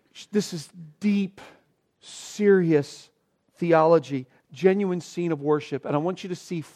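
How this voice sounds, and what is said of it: Usual voice. Nothing is said of it.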